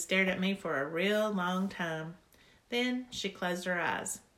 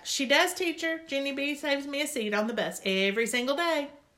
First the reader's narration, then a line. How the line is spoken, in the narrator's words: That Grace shouted back